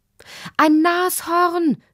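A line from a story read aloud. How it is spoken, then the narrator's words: Woman's call. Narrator (German): rief Lottis Mutter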